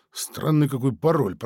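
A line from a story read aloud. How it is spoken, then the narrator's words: Muttered. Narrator (Russian): пробормотал Сергей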